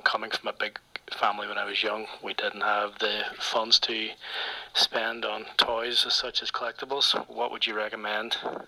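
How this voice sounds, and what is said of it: Fancy foreign accent. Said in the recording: “I like that fucking fancy accent ... that's a good accent”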